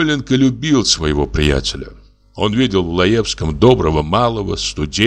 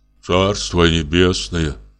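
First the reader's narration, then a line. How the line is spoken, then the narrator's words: Sigh. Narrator (Russian): вздохнул Самойленко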